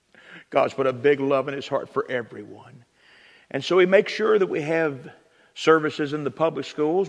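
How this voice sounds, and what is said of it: Virginia accent. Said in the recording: “I come from Virginia. That's where I get this accent ... I talk normal in Virginia.”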